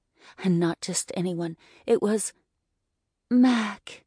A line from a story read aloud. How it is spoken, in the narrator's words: I breathed out